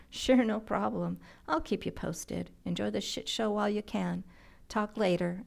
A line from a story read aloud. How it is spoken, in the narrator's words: Andrea laughed